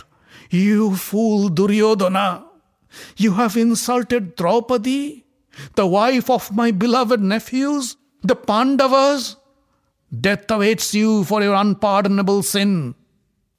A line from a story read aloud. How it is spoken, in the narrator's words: As if waking up from a deep slumber, Dhritarashtra cried out